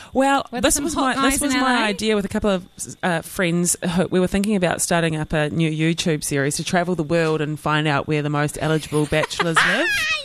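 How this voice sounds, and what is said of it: New Zealand accent. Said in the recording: “They were really into the Kiwi accent”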